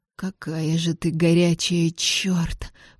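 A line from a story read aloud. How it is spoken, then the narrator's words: Hissing. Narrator (Russian): прошипел Беннет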